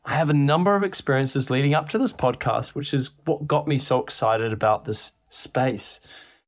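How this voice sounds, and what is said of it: New Zealand accent. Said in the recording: “you also probably can tell from my accent I'm not actually from here. I'm from New Zealand”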